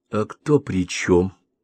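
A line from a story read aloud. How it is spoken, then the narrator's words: Quiet question. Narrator (Russian): тихо спросила Лера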